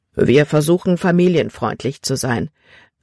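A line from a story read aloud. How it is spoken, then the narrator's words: Plain. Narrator (German): antwortete Kapitän Norstad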